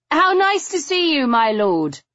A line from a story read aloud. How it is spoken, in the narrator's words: I shouted